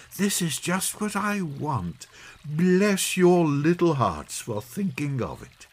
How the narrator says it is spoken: she exclaimed

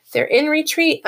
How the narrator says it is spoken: a man shouted up from the floors below

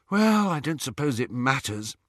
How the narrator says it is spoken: sighed Hermione

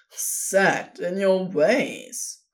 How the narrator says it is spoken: Crowley laughed

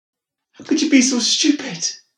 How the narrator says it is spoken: Claire shouted at him

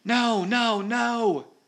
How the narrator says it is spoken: he shouted

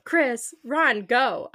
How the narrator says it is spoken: yelled

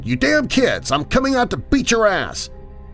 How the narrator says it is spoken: I finally had enough and yelled

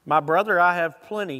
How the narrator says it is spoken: Esau answered

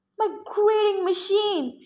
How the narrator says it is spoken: She cried

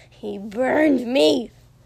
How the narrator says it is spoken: Tomura hissed furiously

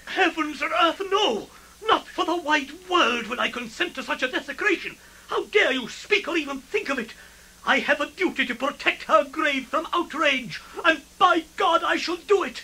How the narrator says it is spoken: White with fury, he cried

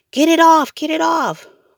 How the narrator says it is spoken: Sam screamed

